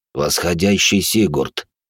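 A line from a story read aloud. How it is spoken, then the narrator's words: Hoarse voice. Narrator (Russian): хрипло сказал теневик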